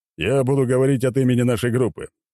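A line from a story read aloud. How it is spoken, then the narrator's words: Deep bass male voice. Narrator (Russian): пробасил мужчина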